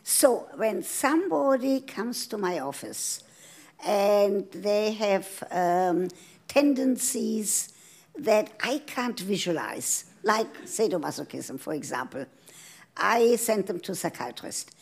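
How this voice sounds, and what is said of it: European accent. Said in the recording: “As you hear from my accent, I come from Europe”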